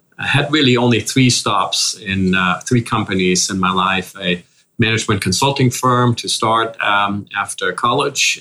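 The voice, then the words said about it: Slight German accent. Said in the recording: “As you can probably hear already with a slight accent, I grew up in Germany”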